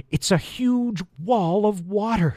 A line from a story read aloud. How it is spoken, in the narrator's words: gasped